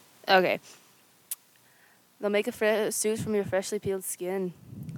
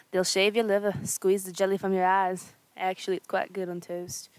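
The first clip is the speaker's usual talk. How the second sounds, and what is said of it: Attempted Scottish accent. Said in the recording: “let me look up how to do a Scottish accent”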